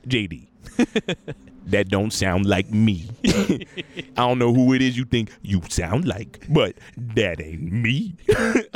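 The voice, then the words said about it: Imitates another person's voice. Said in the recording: “your impersonation of him ... it's dead on ... it's uncanny”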